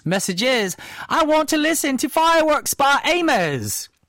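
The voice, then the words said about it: Put-on British accent. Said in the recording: “I don't know why I have a British accent.”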